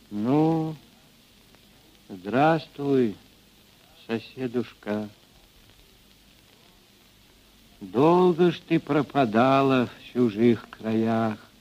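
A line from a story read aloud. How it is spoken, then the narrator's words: Quiet. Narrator (Russian): Ильинична, мать Григория Мелехова, негромко сказала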